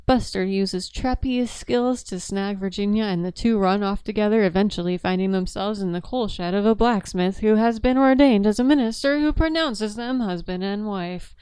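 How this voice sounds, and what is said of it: Newscaster-style reading voice. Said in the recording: “That was my newscaster voice.”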